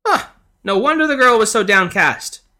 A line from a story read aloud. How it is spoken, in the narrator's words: she cried out